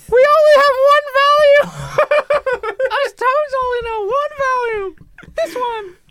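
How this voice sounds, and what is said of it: Loud high-pitched cartoon character voice. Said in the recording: “Why are you yelling like that high-pitched voice?”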